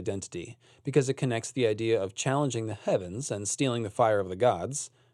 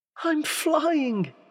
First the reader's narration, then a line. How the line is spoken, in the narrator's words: he cried in delight